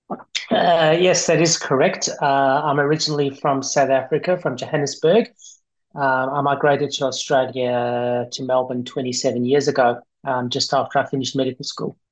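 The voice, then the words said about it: Thick Australian accent. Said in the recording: “you have an Australian accent, but I think your roots are South African ... your Australian accent is a bit thicker than most”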